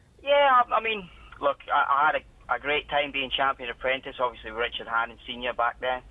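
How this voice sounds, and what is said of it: Scottish accent. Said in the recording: “We can hear from your accent that Scotland is your home.”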